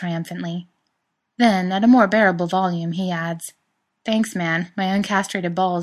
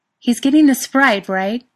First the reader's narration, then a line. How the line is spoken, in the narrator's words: Sophia shouts